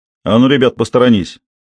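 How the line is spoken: Loud bark, panting. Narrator (Russian): Рявкнул он громко и тяжело дыша

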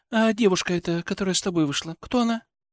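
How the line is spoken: Seemingly calm, almost indifferent. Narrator (Russian): Вопрос прозвучал вроде бы спокойно, почти безразлично

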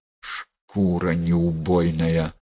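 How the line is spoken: Angry hiss. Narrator (Russian): зло прошипела Пресвятая Богородица

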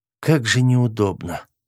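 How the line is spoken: Sighing. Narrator (Russian): в очередной раз вздохнула Эва

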